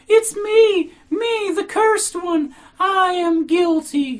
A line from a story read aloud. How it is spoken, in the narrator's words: she cried in a heartrending howl, all in tears